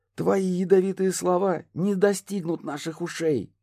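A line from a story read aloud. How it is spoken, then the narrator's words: Squeaky captured little bird. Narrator (Russian): пропищала схваченная мной птичка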